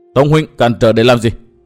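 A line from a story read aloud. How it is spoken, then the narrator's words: Angry question. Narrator (Vietnamese): Nguyên Bình ngừng lại, tức giận hỏi Tông Đào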